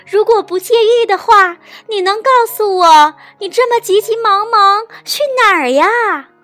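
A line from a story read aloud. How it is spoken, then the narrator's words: Calling out. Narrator (Chinese): 蜘蛛发发喊道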